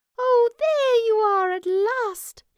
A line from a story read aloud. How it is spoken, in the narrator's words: the little mouse squeaked joyfully